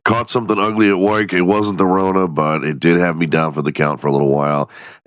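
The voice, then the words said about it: Congested, nasal voice. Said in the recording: “still a little bit congested, so I apologize if you can hear it in my nasally voice”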